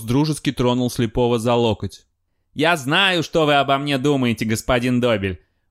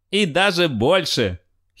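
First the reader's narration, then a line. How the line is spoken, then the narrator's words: Giggle. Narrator (Russian): хихикнул Круз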